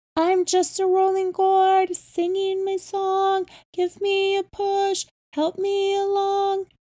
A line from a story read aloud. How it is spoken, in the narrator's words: In a thin, high voice, Grandma chanted